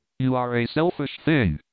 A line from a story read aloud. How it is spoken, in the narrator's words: cried Colin